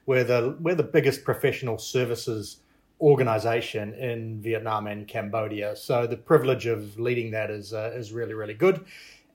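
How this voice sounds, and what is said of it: New Zealand accent. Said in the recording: “I'm from New Zealand. I you can probably tell that by my sophisticated and cultured accent.”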